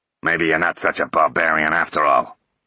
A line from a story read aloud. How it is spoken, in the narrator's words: he grunted